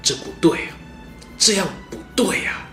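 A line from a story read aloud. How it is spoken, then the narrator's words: Frustrated muttering. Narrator (Chinese): 陈宫一股闷气塞在胸口，只能喃喃自语说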